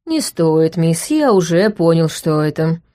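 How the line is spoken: Weary. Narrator (Russian): устало произнес ректор

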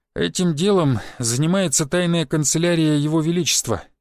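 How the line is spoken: Sighed. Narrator (Russian): вздохнул Сергеич

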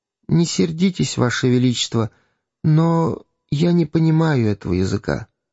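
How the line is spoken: Timid, embarrassed boy. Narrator (Russian): мальчик смущенный робко промолвил

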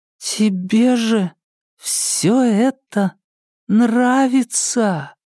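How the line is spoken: Stunned drawl. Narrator (Russian): ошеломленно протянула она

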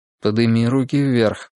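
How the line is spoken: Calm quiet command. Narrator (Russian): спокойно и тихо приказал Тригрей

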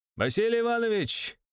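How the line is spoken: Joyful shout. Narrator (Russian): радостно крикнул Валигура-младший

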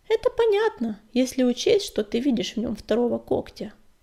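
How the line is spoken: Calm. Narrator (Russian): спокойно сказала Пепелюшка

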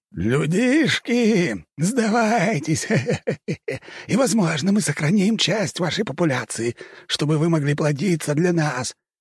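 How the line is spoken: Laughing creatures. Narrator (Russian): смеялись каппы

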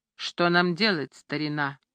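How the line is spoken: Dull lifeless voice. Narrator (Russian): спросил он глухим, безжизненным голосом

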